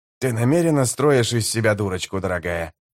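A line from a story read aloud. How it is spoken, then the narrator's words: Grumbling. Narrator (Russian): пробурчал жемчуг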